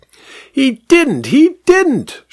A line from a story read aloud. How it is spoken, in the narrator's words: shrieked the vicar